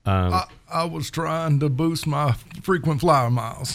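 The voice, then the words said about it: Poor impression of another person's voice. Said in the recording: “Really bad Clinton impersonation.”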